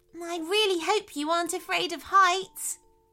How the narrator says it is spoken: gasped Tara

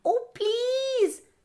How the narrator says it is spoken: the little boy cried

